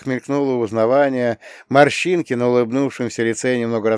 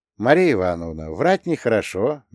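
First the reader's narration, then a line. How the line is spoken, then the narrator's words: Gentle remark. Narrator (Russian): мягко заметил я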